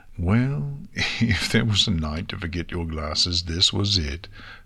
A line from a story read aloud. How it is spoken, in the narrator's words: Twilight said with a chuckle